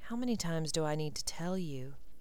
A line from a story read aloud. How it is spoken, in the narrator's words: he said softly